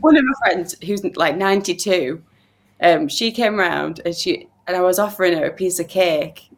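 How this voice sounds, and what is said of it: Yorkshire accent. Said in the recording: “your accent is Yorkshire-born ... I'm from Yorkshire and I haven't ever left my accent”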